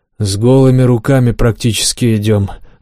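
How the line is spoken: Sigh. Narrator (Russian): вздохнул Жакоб

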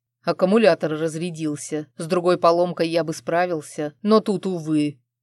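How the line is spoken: Annoyed growl. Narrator (Russian): раздосадованно прорычал Арман

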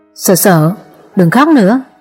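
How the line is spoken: Gentle, smiling. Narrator (Vietnamese): Chàng mỉm cười, dịu dàng nói

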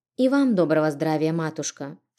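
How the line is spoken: Calm greeting, holding back tears. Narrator (Russian): Спокойно поздоровалась, хотя к глазам подступали слезы

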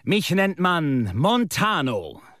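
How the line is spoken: Loud, sonorous call. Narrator (German): rief der seltsame Reiseführer nunmehr mit ebenso lauter, volltönender Stimme

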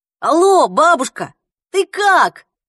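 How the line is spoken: Yelling into phone. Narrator (Russian): завопил в трубку

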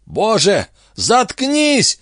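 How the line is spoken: Yelled. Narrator (Russian): заорал гард

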